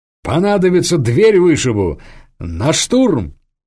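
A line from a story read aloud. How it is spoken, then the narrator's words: Laughing. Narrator (Russian): С хохотом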